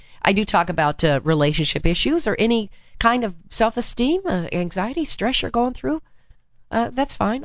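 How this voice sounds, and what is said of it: Slightly hoarse voice. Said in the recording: “I've been talking too much. So I have a little, I'm kind of hoarse. I'm a little hoarse.”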